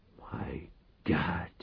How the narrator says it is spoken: Reich whispered

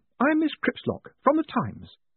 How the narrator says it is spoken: said brightly

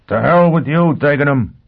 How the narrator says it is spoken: Foyle shouted

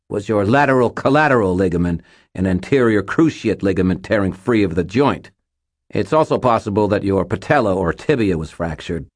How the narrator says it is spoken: Butters said, his voice tight with fear and adrenaline

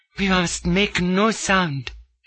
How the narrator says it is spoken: breathed

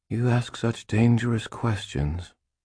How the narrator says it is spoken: she breathed

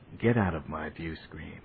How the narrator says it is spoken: he said, and in a quiet voice

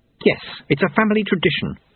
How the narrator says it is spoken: Susan snapped

